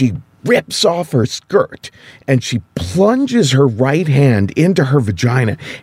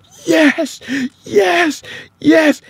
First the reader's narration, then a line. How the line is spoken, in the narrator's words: she's breathing like she's coming up from underwater, and she starts yelling